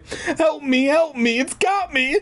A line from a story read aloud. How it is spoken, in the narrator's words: Clark wailed